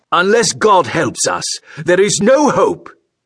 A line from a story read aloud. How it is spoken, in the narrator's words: he yelled